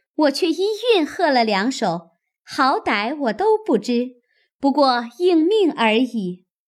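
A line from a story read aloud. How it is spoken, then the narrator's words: Eager, laughing. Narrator (Chinese): 史湘云一心兴头，先笑说道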